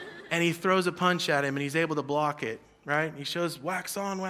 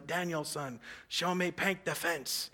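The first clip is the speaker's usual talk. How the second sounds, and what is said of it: Weird put-on accent. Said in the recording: “it's a weird accent”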